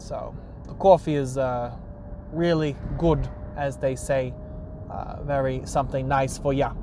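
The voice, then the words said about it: Strong put-on New York accent. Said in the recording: “the New York accent coming out in here. It's real, real strong here.”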